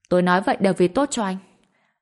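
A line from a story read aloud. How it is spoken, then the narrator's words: Angrier. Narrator (Vietnamese): Kiki càng tức giận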